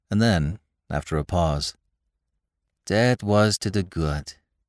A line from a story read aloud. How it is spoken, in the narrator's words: he said wistfully